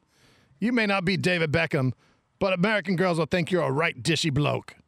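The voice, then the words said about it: Convincing put-on British accent. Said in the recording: “That's one of the best British accents I've ever heard. ... That's really good.”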